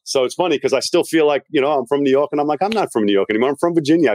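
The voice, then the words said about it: Mixed New York-Virginia accent. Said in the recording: “You can tell from his accent, he's not from Virginia ... I'm from Long Island, New York, but I moved to Virginia, which is why my accent's a little bit confused ... people tell me they think I'm from New England. Some people tell me Australia ... it's just a mixed accent now.”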